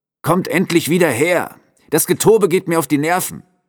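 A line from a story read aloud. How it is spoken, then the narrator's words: Called loudly. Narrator (German): rief der Wetzer laut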